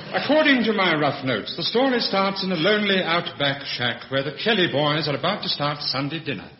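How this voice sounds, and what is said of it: Posh radio announcer voice. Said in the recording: “his posh radio voice”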